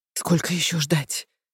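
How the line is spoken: Whisper. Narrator (Russian): зашептала

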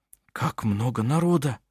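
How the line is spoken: Whisper. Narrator (Russian): прошептал Бенгт Эдвард Анне Марии за занавесом

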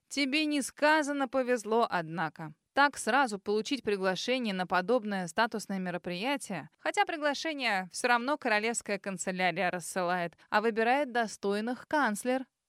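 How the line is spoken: Snort. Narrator (Russian): фыркнула она

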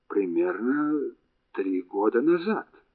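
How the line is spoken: Muttering. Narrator (Russian): пробормотала Вилли

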